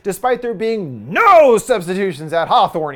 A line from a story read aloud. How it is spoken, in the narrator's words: he shrieks